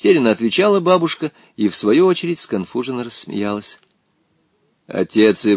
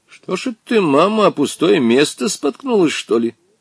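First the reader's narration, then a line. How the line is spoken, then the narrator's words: Relieved laughter. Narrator (Russian): Облегченно рассмеялся Волькин отец, довольный, что бабушка нисколько не пострадала при падении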